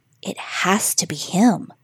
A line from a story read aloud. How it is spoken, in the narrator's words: she spoke under her breath